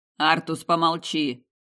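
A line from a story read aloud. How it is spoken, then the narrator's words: Commanding demand. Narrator (Russian): приказным тоном потребовал Амадео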